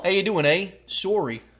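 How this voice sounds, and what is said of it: Put-on Canadian accent. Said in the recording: “Oh, Canadian.”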